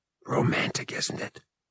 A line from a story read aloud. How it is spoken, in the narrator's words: whispered, with a grin